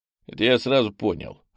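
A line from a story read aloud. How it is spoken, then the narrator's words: Smirking grunt. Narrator (Russian): хмыкнул попаданец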